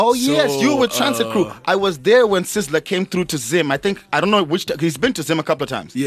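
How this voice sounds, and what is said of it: Usual voice. Nothing is said of it.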